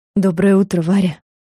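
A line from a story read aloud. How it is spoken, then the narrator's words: Hoarse voice. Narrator (Russian): хрипло сказал он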